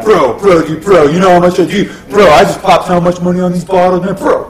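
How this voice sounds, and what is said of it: Huntington Beach bro impression. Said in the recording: “That is a really good impression of one of those assholes ... someone from Huntington Beach ... All you gotta do is say bro 17 times in every sentence”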